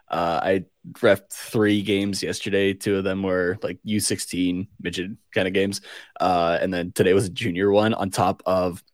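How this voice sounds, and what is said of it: Raw, hoarse, strained voice. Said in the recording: “my voice is a little raw right now... my voice is very much going”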